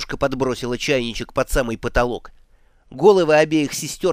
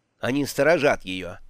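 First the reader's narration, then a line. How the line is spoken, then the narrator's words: Plain. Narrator (Russian): ответила матушка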